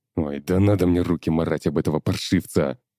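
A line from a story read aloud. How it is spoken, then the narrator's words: Barked. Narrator (Russian): рявкнул Афанасьев-старший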